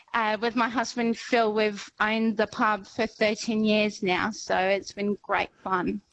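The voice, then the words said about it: Slight French accent in English. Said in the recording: “is there a slight English tinge to your accent? ... I'm actually French.”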